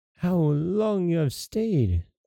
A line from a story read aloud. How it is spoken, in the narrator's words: cried she, gaping, as if she had just been waked out of her sleep